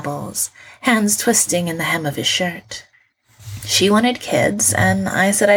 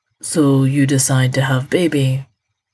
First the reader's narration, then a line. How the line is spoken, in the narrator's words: Gino says, flatly